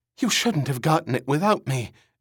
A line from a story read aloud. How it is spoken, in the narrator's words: Erin gasped